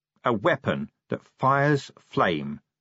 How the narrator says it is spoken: he said slowly

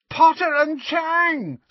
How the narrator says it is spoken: screeched Pansy, to a chorus of snide giggles

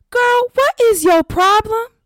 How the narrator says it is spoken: yelped as she tried to gain her bearings

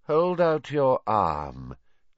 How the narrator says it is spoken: said Voldemort lazily

